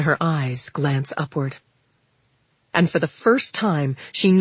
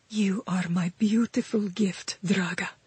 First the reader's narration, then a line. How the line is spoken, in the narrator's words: she whispers in her native tongue, her voice shaking